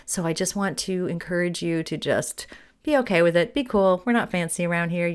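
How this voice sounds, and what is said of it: Hoarse voice from a cold. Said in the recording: “I am here with a really bad cold ... Came home from my conference with this hoarsey voice”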